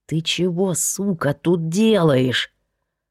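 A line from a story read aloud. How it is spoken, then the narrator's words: Female hiss. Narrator (Russian): прошипел кто-то женским голосом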